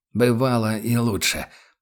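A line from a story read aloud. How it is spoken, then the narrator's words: Hoarse rasp. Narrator (Russian): прохрипел капитан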